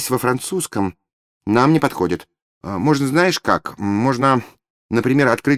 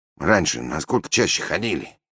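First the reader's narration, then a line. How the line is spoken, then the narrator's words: Sigh. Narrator (Russian): вздохнул Аристотель Федорович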